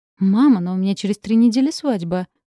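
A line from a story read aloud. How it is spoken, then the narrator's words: Exclaiming. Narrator (Russian): воскликнула Белла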